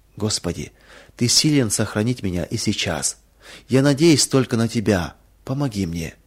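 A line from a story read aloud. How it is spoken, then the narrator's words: Trusting whisper. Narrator (Russian): доверчиво шептала она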